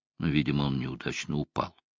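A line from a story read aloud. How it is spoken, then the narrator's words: Sympathetic tone. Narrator (Russian): сказал я сочувственным тоном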